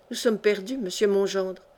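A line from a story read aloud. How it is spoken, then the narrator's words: Desolate sigh. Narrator (French): soupira Achille Musée d'un ton de désolation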